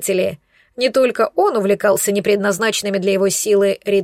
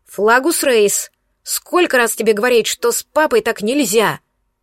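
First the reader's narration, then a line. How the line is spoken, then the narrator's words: Menacing bark. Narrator (Russian): грозно рявкнула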